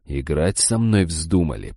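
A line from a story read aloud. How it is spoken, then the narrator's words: Hissing in face. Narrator (Russian): прошипел я ему в лицо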